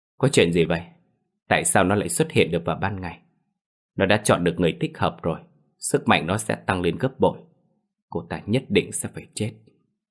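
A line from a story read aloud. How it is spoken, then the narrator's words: Trembling, muttering. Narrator (Vietnamese): thân thể run lên như cái sàng, lẩm bẩm nói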